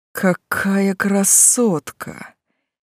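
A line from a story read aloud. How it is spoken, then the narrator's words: Breathless exclamation. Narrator (Russian): выдохнул кто-то из свиты графа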